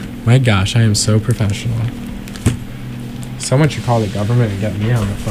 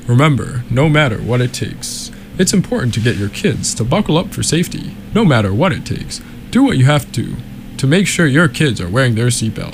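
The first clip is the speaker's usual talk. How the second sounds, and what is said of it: Public safety announcer voice. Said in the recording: “with my best public safety announcer voice.”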